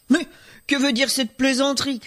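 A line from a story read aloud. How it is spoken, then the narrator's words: Shouted. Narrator (French): cria-t-il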